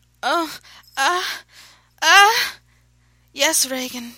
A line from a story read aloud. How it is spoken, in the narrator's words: she panted